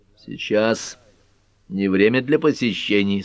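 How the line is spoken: Stern. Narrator (Russian): строго сказал Олли Планецкий

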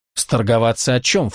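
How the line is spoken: Snorting. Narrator (Russian): фыркнула Дебора

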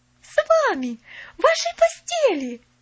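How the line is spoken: Breathless, ecstatic exclaiming. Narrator (Russian): Захлебываясь от восторга, воскликнула Поллианна

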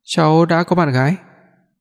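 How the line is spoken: Smiling. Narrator (Vietnamese): mỉm cười ... nói

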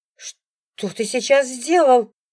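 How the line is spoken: Wife shrieking. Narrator (Russian): взвизгивает жена

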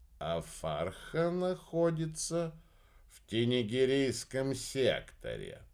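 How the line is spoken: Drawling. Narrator (Russian): протянул Мельник

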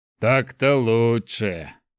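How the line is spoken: Deep bass voice. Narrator (Russian): пробасил

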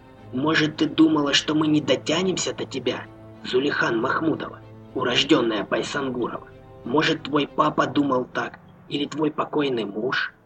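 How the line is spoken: Quiet, near whisper. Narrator (Russian): Петр говорил тихо, почти шепотом

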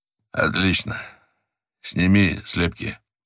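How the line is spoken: Hoarse detective's voice. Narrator (Russian): раздался хриплый голос детектива Миллера

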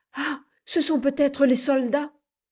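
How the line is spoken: Joyful exclamation. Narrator (French): s'écria avec joie Madame de Kersin

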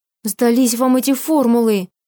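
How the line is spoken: Exasperated exclamation. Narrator (Russian): В сердцах воскликнула я

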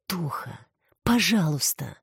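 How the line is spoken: Breathed out. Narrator (Russian): выдохнула Алекс

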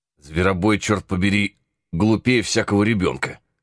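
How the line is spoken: Old man grumbling. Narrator (Russian): заворчал старик

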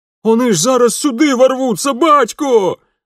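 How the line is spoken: Sudden desperate shout, elder son. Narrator (Russian): вдруг отчаянно закричал старший сын Бабайка

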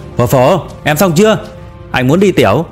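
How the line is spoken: Impatient shout. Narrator (Vietnamese): Đinh Hạo đợi không nổi nữa, hét vào phía trong

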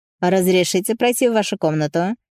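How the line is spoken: Plain. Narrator (Russian): спросил Жак

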